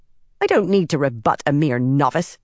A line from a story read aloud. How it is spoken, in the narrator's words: Elida snapped